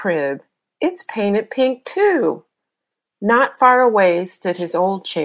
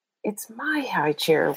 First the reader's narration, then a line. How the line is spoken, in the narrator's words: whispered Peter